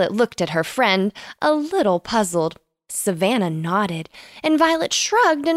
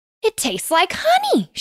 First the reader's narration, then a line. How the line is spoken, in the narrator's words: she exclaimed